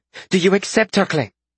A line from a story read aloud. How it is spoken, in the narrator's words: She snapped